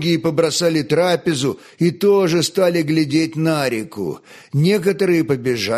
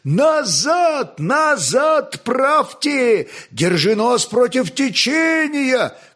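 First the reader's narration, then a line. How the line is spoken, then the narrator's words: Old men shouting. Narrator (Russian): кричали старики, хотя отроки их не могли слышать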